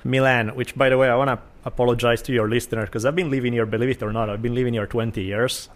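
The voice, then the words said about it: Italian accent. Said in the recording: “my weird Italian accent ... You just have a very distinct Italian flavor.”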